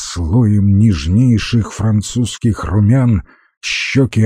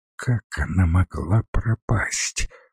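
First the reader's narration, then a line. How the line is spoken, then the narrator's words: Whispered question. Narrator (Russian): шепотом спросила Зотова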